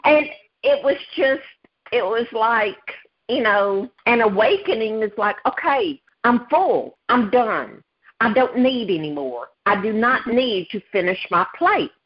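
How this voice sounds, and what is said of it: Thick Southern US accent. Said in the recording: “I am from the South. I have a very thick Southern accent.”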